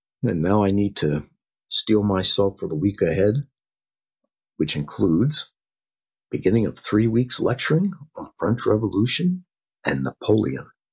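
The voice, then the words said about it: Rough, slightly hoarse voice. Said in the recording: “My voice is a bit rough. I was under the weather this past week.”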